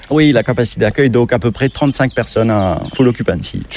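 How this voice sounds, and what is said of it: Mauritian French accent, slightly sing-song. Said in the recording (French): “l'accent, notre accent mauricien, notre patois ... ce français qui est un petit peu ... peut-être un peu chantant”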